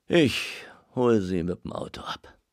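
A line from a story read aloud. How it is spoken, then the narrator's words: Tired. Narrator (German): sagte Muschler müde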